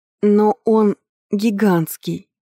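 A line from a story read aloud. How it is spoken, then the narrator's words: Forced out. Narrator (Russian): выдавила я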